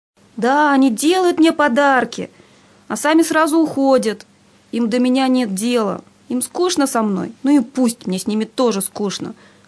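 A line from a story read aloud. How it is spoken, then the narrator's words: Tearful shout. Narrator (Russian): со слезами в голосе крикнул Никита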